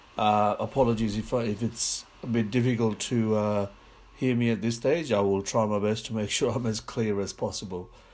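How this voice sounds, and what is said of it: Congested, sick-sounding voice. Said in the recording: “I've got a bit of a flu that I'm recovering from, so my voice is sounding a little bit funny”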